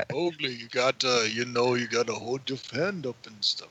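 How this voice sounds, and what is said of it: Rocky impression. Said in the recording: “Was that a Rocky impersonation? ... Yeah, that was my Rocky. ... it's not bad.”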